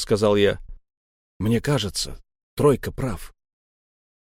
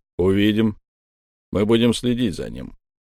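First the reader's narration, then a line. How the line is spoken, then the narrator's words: Cold, dead man. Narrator (Russian): холодно ответил мертвец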